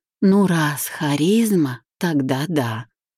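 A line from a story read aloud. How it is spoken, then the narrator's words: Forced out, slightly stammering. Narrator (Russian): выдавила, слегка заикаясь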